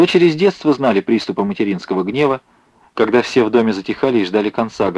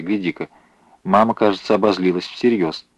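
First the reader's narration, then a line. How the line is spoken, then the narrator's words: Quiet remark. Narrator (Russian): Маруся тихо сказала сестре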